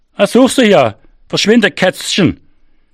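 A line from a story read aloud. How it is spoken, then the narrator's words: Called after. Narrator (German): rief er mir nach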